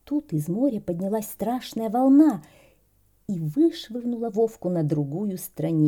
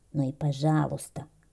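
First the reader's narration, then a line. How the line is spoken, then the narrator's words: Grumbled. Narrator (Russian): буркнул Вовка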